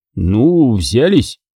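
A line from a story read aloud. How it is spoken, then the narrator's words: Strained. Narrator (Russian): выдавил я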